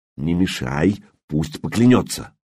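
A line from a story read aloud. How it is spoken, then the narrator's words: Whispered. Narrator (Russian): Трувор … шепнул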